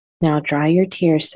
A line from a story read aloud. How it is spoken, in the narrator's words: said her mother